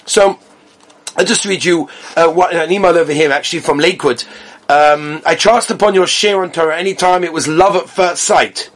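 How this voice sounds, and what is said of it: English accent. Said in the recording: “Your English accent is so enchanting to listen to that I can listen to you for hours ... They just like my accent.”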